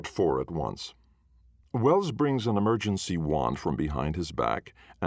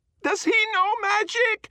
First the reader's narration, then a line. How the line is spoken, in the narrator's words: screams